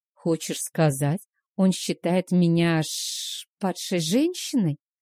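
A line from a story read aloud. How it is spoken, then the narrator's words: Strained, forced out. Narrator (Russian): выдавила из себя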